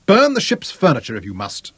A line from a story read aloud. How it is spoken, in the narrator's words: Clinton snapped at him